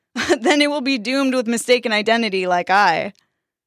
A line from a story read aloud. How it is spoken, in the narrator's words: The captain laughed like a madman as he faded from sight, calling out